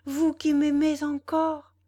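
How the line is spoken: Exclaimed. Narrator (French): s'écria Valentine

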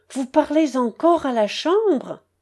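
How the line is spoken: Witty man exclaiming. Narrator (French): s'écria un journaliste homme d'esprit

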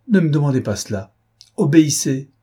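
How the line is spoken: Frightened exclamation. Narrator (French): s'écria Suzanne avec effroi

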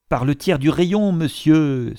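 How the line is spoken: Exclaimed. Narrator (French): s'écria Palmyrin Rosette

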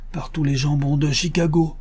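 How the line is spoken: Exclaimed. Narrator (French): s'écria Joe Bevins, le petit caporal

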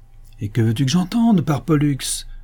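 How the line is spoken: Husband's gruff reply. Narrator (French): répondit le mari d'un ton bourreux

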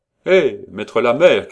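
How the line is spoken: Shouting. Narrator (French): cria l'exécuteur

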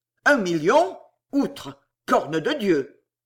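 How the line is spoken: Dazzled, choked, in unison. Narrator (French): Ils sursautèrent éblouis, et d'une même voix étranglée

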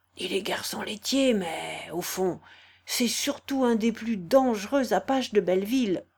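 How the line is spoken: Murmured. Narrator (French): Il lui murmurait en clignant de l'œil

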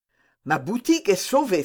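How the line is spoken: Exclaiming. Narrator (French): s'écria Planchet

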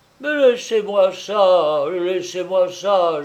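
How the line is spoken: Moaning. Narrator (French): gémissait-il

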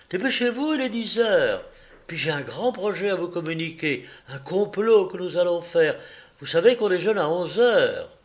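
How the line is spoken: Shouting. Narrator (French): Elle cria

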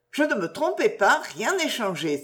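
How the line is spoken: Exclaiming. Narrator (French): s'écria-t-elle

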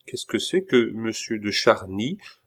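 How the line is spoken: Plain question. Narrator (French): demanda Pitou

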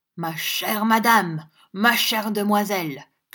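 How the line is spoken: Violently agitated shout. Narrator (French): cria le frère Charles dans une agitation violente

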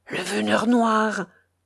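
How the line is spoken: Terrified, strangled murmur. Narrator (French): murmura le snappant d'une voix que l'effroi semblait étrangler

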